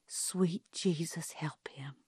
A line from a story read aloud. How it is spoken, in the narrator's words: Calpurnia murmured